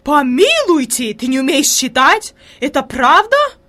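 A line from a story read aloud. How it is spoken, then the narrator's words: Horrified exclamation. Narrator (Russian): воскликнула фрейлин в ужасе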